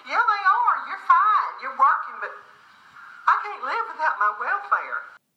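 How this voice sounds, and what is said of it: Rural American accent, heavy R. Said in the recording (Chinese): “这就是很典型的美国的乡村地区的人们的口音。嗯，那个 R 的声音非常的浓重，很多的音节和声音的话呢，跟标准美语的这个声音的话呢，也有不少的区别”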